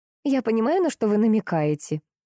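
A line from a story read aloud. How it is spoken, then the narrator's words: After laughing. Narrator (Russian): отсмеявшись, сказала Светлана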